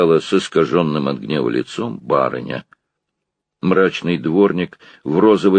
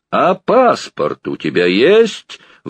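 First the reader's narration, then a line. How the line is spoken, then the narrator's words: Sudden menacing roar. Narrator (Russian): вдруг грозно взревел доктор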